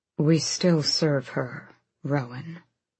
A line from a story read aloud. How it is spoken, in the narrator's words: Gavriel murmured